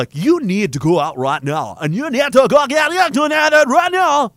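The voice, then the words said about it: Bizarre garbled put-on accent. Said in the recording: “What accent is that? It's aliens having a stroke in another dimension while on acid.”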